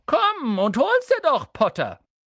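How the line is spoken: Calling down from above. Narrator (German): Von den obersten Ästen einer Eiche herab rief er

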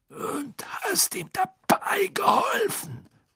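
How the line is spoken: Grumbling. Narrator (German): brummte Moody

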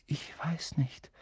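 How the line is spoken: Quiet. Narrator (German): sagte Harry leise

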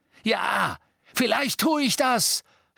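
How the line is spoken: Shouting. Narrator (German): schrie Ron

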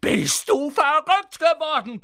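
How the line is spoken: Yelling. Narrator (German): brüllte Ron

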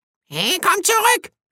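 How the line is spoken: Birds shrieking. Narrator (German): kreischten die Vögel

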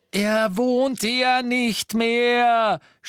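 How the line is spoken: Shouting in German. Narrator (German): schrie sie auf Deutsch

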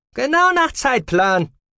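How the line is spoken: Delighted call. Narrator (German): rief ein Begleiter erfreut

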